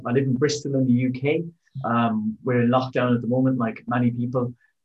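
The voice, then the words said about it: Irish accent. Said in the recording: “I'm Irish, as you can probably tell from the accent.”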